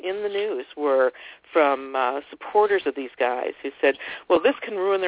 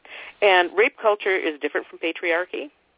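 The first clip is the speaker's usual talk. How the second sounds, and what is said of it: Rising question intonation at end. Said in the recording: “my voice went up at the end there”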